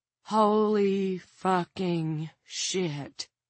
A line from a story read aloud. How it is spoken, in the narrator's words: Jared Norcross breathed